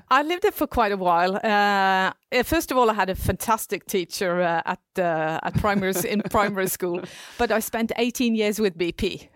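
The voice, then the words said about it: UK English accent. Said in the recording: “you have such a perfect UK English”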